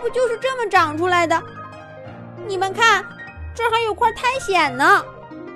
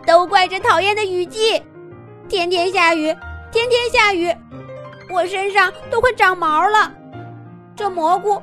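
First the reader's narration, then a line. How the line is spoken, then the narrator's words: Crying again. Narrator (Chinese): 狮子兔又哭起来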